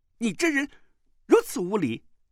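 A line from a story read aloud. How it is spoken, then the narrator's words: Angry. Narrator (Chinese): 穆婉清怒道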